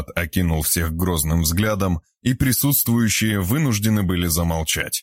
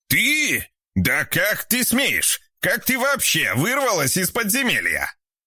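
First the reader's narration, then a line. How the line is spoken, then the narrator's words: Indignant shout. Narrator (Russian): Снова возмущенно закричал Игорь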